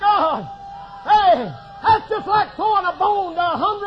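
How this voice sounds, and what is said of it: Usual voice. Nothing is said of it.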